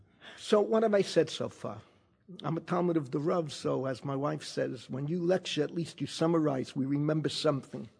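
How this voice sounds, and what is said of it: Bronx accent. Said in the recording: “all my languages are with a Bronx accent”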